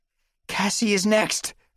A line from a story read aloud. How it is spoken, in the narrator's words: I cried